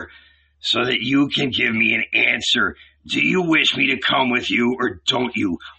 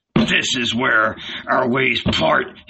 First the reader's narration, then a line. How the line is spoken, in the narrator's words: he growled